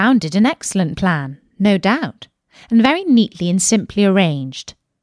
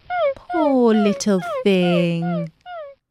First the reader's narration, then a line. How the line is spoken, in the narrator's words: said Alice in a coaxing tone